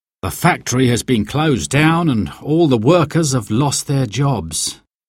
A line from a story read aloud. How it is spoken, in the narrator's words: he said sadly